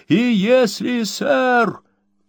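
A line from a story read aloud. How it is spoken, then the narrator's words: Shouting after someone. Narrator (Russian): крикнул ему вдогонку жилец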